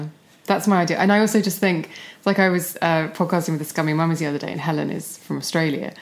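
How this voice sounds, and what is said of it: Usual voice. Nothing is said of it.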